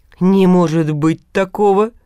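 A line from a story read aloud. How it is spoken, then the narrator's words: Muttering. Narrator (Russian): пробурчал улыба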